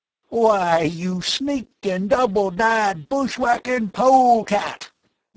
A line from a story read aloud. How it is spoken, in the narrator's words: the old Westerner bellowed